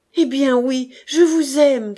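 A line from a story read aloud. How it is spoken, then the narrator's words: Shouting. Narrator (French): cria-t-il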